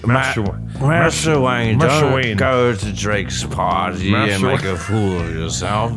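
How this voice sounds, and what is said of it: Generic English butler accent. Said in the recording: “it'll probably just sound like a generic English accent”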